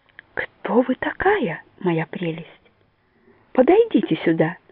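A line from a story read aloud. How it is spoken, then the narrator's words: Gentle regal warmth. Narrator (Russian): ласково говорит она, как королева, улыбаясь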